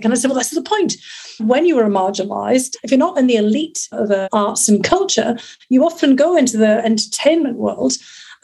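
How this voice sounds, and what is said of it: Northern English accent. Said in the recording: “I'd be discriminated against by my accent ... There are plenty of people with northern accents.”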